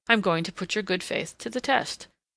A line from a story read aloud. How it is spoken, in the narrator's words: calmly